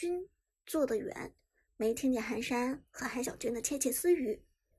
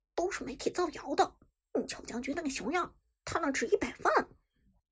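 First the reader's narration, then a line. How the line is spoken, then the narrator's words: Disdainful low voice. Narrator (Chinese): 寒山嫌弃的…小声道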